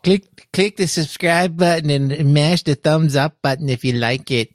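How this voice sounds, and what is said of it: Odd put-on accent. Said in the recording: “I don't know what the hell accent that was”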